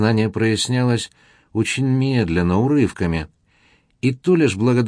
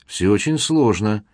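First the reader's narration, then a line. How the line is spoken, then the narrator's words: Thoughtful. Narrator (Russian): задумчиво отозвался Стефан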